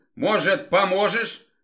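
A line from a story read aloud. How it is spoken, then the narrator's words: Shouting from afar. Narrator (Russian): выкрикнула Света за метров 50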